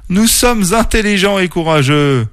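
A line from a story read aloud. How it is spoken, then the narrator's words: Exclaimed. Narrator (French): s'exclama Tasha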